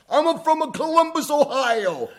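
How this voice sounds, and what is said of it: Thick Puerto Rican accent. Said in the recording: “In the thickest Puerto Rican accent”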